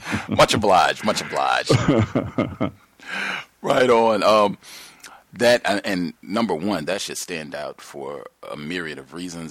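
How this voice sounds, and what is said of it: Rich radio-style voice. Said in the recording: “You got a total radio voice for real.”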